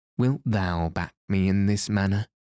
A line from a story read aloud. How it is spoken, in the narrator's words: she said